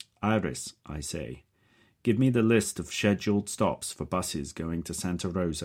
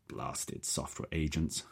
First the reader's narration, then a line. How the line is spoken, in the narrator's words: I grumble to Nadia and Faiza